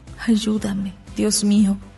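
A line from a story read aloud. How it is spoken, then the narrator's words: Crying murmur. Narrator (Spanish): lloraba y murmuraba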